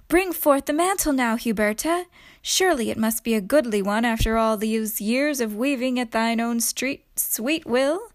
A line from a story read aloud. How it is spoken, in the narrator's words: called from the garden, saying gaily